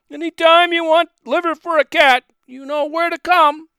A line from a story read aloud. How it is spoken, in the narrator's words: The butcher shouted